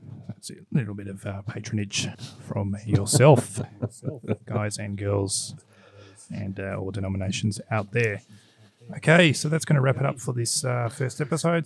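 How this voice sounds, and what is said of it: Strained voice, about to give out. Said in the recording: “Sorry, my voice is about to lose it. Feel like I've been coming down with a cold”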